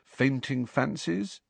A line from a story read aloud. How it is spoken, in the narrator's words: Harry suggested quietly